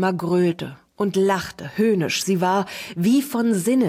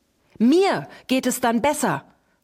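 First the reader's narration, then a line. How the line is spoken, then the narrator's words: Frantic shout. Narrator (German): schrie Wilma völlig außer sich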